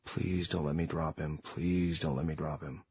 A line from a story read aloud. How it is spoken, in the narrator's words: I'd pray under my breath